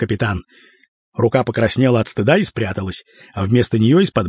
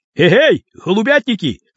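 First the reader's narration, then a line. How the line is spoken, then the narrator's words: Shouting. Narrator (Russian): крикнул он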